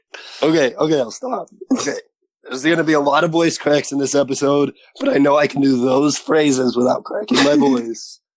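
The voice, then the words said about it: Husky, sore-throat voice. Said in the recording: “do you have a sore throat? ... a very interesting, husky, sexy voice”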